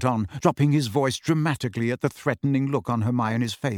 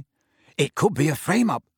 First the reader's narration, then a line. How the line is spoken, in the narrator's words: Ron exclaimed excitedly